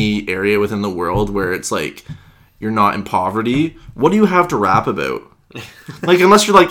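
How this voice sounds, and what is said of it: Usual voice. Nothing is said of it.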